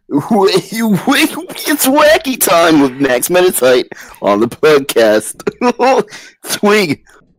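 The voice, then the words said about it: Exaggerated radio announcer voice. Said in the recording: “talk in our radio voices ... introduce yourself in a radio voice”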